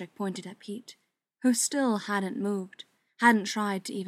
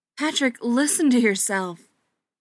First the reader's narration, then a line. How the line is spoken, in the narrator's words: Andy exclaimed